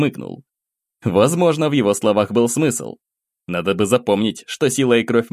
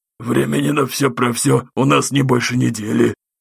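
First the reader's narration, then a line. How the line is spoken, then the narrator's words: Strained, forced out. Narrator (Russian): выдавил из себя Мурза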